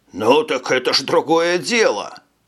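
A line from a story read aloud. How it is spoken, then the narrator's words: Exclaiming. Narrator (Russian): воскликнул генерал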